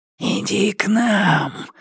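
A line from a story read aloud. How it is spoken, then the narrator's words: Hissing demons. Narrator (Russian): шипели бесы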